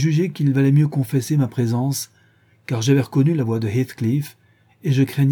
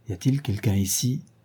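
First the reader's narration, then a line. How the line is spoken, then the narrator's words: Murmured, expecting no answer. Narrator (French): il a murmuré, évidemment sans attendre de réponse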